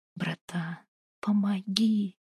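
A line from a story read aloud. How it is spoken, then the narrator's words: Man whispering again. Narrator (Russian): опять зашептал мужик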